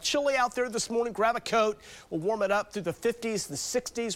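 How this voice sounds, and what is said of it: Stuffy, congested-sounding voice. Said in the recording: “I'm dealing with some allergies here today. You might hear it in my voice.”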